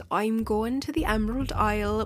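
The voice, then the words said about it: Bad put-on Irish accent. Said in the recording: “that terrible impression ... My inner Lucky Charms leprechaun got the best of me. Any citizens of Ireland, forgive me”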